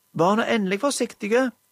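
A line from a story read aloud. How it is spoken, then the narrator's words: Distant shout in darkness. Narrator (Norwegian): ropte Magda, en plass ute i mørket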